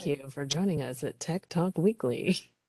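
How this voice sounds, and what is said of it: Polished public-radio announcer voice. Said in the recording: “put on my NPR voice ... This is my NPR voice ... I automatically go into that voice”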